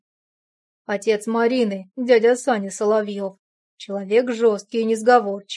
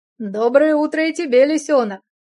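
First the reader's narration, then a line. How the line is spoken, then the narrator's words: Mocking shouted reply. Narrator (Russian): с усмешкой крикнул я в ответ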